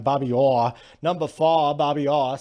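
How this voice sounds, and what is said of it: Put-on New England accent. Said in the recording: “Northeast accent today. A New England accent.”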